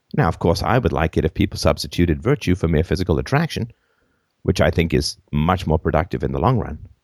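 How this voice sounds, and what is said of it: Hoarse, croaky sick voice. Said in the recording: “sorry about my voice,... it should be back to normal in a day or two... croaked my way through”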